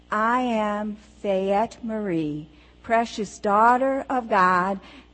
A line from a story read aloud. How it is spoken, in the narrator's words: said in a stronger voice